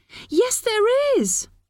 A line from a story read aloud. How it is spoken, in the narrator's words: Molly screamed